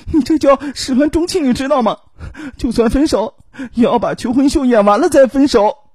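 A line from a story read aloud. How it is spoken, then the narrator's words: Crying. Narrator (Chinese): 他哭着说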